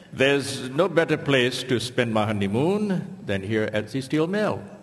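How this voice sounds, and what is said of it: Put-on foreign accent. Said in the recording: “as was obvious from ... accent”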